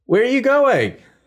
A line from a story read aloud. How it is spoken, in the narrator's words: shouts over to Ning